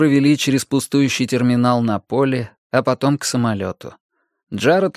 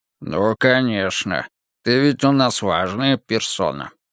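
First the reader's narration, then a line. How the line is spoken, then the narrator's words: Mocking grumble. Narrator (Russian): насмешливо проворчал Вик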